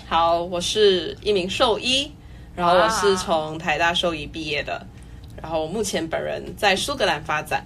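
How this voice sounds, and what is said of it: Recognizable Malaysian accent. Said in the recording (Chinese): “听口音就知道，听口音就知道”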